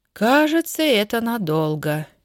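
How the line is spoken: Hopeless sigh. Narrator (Russian): безнадежно вздохнула Васькина мама

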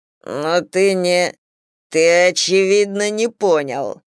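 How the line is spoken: Growling. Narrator (Russian): прорычал Миша

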